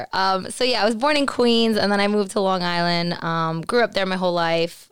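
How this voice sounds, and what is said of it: New York accent. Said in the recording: “I am originally born and raised in New York ... the accent definitely gets recharged and it gets crazy. But you'll hear through this whole little chat the words that I do say that it's still there.”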